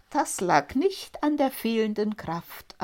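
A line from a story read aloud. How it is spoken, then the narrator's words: Plain. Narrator (German): antwortete der Schneider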